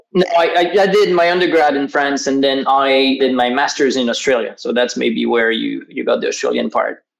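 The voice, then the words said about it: Mixed French and Australian accent. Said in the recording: “Sort of like a hint of French and a hint of Australian English”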